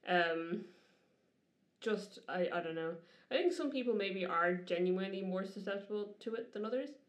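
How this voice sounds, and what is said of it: Irish accent, distinctive R sounds. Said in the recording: “I'd still have a notably Irish accent ... there's certain letters you pronounce that are still... ... It's your R's.”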